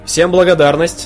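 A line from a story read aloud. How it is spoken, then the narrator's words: King yelling. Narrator (Russian): завопил король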